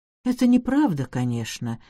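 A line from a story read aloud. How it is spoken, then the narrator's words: Quiet addition. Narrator (Russian): тихо прибавила она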